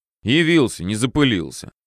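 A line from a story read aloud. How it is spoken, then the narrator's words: Mentor's snorting remark. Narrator (Russian): хмыкнул наставник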